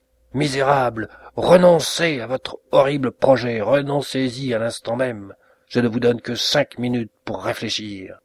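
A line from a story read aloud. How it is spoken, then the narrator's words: Furious shout. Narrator (French): sa colère se trouva montée au plus haut point, il s'écria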